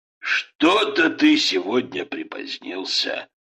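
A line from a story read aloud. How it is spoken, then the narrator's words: Grumbled. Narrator (Russian): проворчал Ребенко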